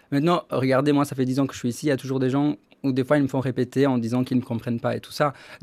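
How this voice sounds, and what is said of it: Charming accent. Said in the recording (French): “vous avez un accent charmant”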